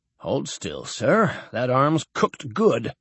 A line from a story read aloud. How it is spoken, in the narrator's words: The medic muttered